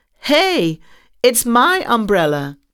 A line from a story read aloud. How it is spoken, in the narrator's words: The well-dressed man shouted